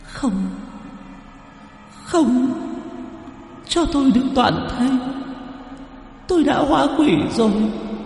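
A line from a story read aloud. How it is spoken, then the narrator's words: Sobbing. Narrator (Vietnamese): Cô gái nghe vậy lại càng nức nở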